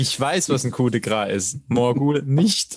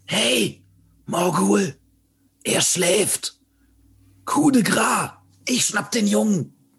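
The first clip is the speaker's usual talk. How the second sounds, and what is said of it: Whispering. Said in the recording (German): “flüstere”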